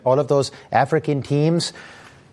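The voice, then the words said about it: Mocking imitation of the mayor's accent. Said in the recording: “The mayor of New York City is rooting for all of those African teams in a funny little accent.”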